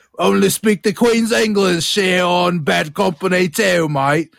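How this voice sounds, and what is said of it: Poor put-on Cockney British accent. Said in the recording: “Cockney British, the London accent ... I don't even know if that's a British accent ... you sounded like Dick Van Dyke in Mary Poppins, but worse”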